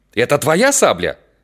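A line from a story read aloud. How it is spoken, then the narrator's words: Shouting. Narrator (Russian): закричал он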